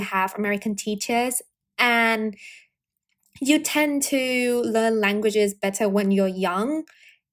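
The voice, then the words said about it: Mixed British and mostly American accent. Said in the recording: “this weird accent, which is a combination of somehow British and mostly American”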